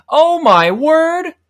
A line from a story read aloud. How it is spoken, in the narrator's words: shouted